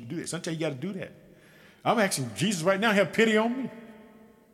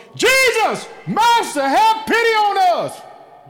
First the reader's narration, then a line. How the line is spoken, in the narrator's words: called out in a loud voice